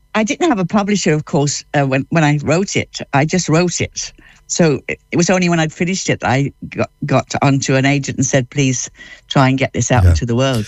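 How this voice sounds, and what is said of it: London English accent. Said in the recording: “that accent, where are you from? ... I was born in London ... I never actually lost it.”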